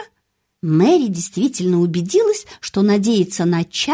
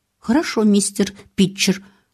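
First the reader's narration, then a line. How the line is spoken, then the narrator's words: Plain. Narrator (Russian): ответила экономка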